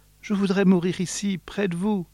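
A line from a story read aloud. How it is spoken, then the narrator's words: Student's small voice. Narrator (French): répond l'élève d'une petite voix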